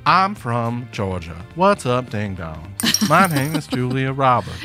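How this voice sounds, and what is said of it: Southern accent, imitates another person's voice. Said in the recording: “It's preferable in that accent. ... I'm kind of doing a Jimmy Carter voice.”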